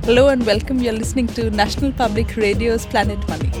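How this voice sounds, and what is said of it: Precise British-tinged Indian English accent. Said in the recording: “You can hear somewhere in her voice, I think, the legacy, a little bit of British colonialism in her very precise British accent.”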